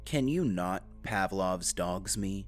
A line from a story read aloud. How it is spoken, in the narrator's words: Casey asked, his tone dry